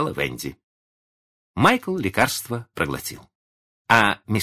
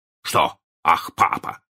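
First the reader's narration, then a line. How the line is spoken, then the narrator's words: Stern question. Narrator (Russian): спросил мистер Дарлинг строго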